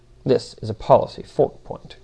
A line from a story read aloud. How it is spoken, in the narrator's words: grumbled Demiurge